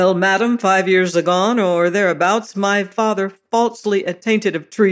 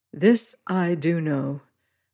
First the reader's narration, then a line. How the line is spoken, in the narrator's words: murmured